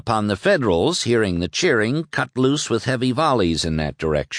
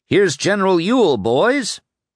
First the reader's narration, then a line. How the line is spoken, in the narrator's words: several of the Georgians called out proudly